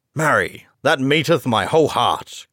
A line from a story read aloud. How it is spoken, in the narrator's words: cried the stranger